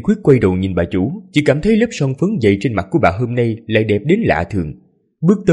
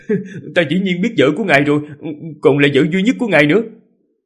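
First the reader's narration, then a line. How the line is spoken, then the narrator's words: Loud laughing. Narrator (Vietnamese): Ninh Khuyết mới cười lớn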